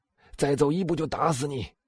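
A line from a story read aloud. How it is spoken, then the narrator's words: Shout. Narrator (Chinese): 他喊道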